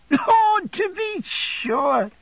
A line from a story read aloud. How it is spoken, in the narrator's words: cried Traddles, laughing